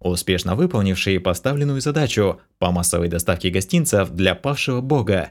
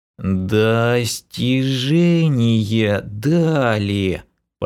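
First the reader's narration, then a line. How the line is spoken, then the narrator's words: Drawling. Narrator (Russian): протянул лысый эльф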